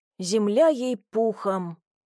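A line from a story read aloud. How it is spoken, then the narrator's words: Drawling. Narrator (Russian): протянул в ответ Петрович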